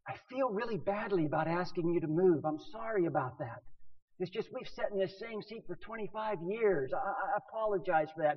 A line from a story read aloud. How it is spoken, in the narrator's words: she's whispering and she says